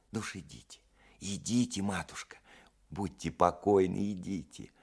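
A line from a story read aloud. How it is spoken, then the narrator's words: Smiling familiar whisper. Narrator (Russian): улыбаясь, прошептала няня с фамильярностью, устанавливающейся между няней и барыней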